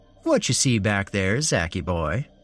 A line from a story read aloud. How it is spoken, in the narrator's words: Larry said in a playful voice